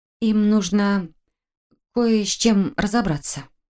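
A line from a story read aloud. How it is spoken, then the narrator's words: Suddenly hoarse voice. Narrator (Russian): внезапно осипшим голосом объяснила я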